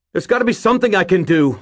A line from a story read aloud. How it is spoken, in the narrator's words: I yelled